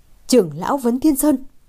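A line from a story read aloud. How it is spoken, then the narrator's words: Startled blurt. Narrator (Vietnamese): mặt liền biến sắc, buột miệng thốt lên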